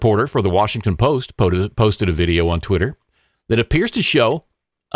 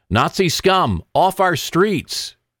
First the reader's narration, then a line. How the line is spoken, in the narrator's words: The crowd can be heard shouting